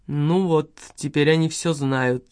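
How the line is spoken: Displeased grumbling. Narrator (Russian): недовольно проворчала профессорша

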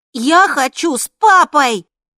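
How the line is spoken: Loud. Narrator (Russian): он сказал громко

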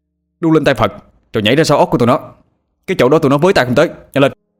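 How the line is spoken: Urgent near-shout. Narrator (Vietnamese): Anh nói mà như hét

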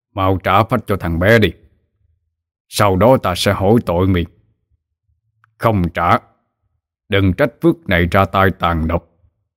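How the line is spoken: Stern voice. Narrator (Vietnamese): thầy Phước mới cất tiếng nghiêm nghị

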